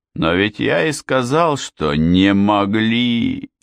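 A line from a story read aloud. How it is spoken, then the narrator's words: Wailing. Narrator (Russian): взвыл сержант Уэйк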